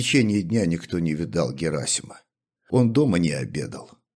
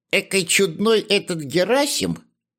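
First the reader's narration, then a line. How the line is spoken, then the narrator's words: Squeaky woman's voice. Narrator (Russian): пропищала толстая прачка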